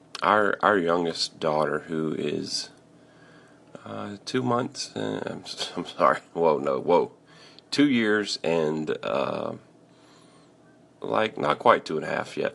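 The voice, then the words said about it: Rough, tired voice. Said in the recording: “my voice sounds really rough this morning. I probably sound very tired”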